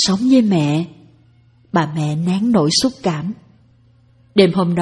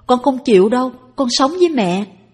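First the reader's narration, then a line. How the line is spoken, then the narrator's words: Child's loud protest. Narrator (Vietnamese): Tèo la lên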